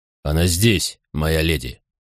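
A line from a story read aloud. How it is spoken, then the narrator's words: Grumbling. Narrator (Russian): проворчал барич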